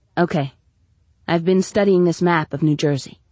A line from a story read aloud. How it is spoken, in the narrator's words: out loud, she said calmly